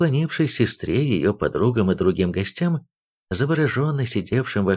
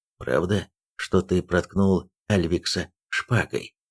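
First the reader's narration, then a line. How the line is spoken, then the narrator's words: Quiet. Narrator (Russian): Ейн тихо сказал Эйлосу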